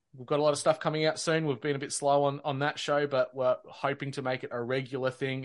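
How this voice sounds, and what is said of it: Australian accent. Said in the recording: “the sexy accent is from ... Australia.”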